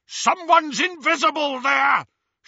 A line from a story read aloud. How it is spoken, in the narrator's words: shouted a masked Death Eater